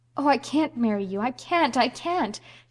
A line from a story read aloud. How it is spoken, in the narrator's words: she cried wildly